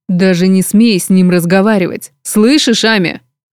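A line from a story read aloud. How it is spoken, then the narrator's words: Menacing hiss, older brother. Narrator (Russian): грозно прошипел старший брат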